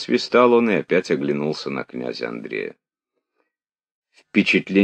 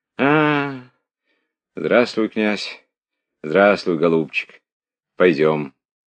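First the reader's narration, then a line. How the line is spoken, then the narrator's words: Tired. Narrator (Russian): устало проговорил он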